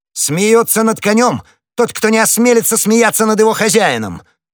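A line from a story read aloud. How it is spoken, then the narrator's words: Furious exclamation. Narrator (Russian): воскликнул в бешенстве гасконец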